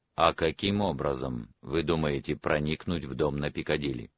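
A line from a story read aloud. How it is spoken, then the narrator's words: Calm. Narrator (Russian): Профессор спокойно сказал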